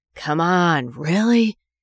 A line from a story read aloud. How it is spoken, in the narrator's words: she asked, her voice hoarse and low